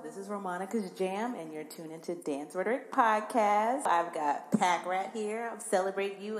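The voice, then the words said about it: Congested, stuffy-nosed voice. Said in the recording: “My nose is a little stuffy ... I sound a little congested”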